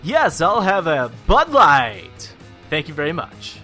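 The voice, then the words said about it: Exaggerated announcer voice. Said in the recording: “I liked the announcer voice ... Should I just start talking like this everywhere we go? ... the weird announcer guy”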